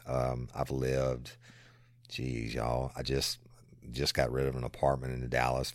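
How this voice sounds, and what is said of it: South Louisiana accent. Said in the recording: “I love your accent ... born and raised in South Louisiana”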